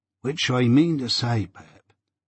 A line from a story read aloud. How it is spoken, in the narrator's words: Joe whispered me